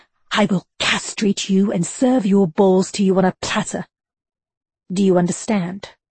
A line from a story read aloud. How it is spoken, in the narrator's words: Lincoln snarled in Buchanan's ear